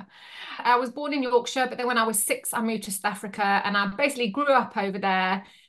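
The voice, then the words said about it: Yorkshire English accent. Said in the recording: “you really do sound like you're from Yorkshire”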